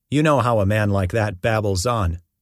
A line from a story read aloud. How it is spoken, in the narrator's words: Jehu replied